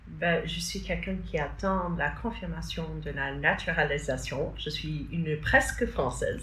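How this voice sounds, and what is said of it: American accent speaking French. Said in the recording (French): “Avec un adorable accent américain”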